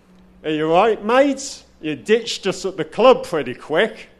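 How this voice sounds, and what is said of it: Terrible put-on Australian accent. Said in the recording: “I apologise for the terrible Australian accent.”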